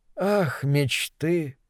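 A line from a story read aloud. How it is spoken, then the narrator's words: Sigh. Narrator (Russian): вздохнул его собеседник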